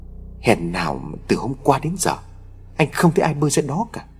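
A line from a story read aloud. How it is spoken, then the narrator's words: Stammering speech. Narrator (Vietnamese): Huy ấp úng nói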